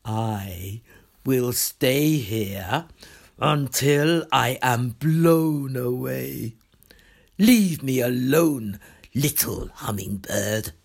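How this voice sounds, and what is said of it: Deep storybook character voice. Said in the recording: “said in its deep voice”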